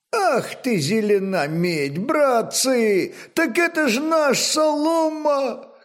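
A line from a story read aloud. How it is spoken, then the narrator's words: Loud surprised exclamation. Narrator (Russian): Громко воскликнул удивленный кузнец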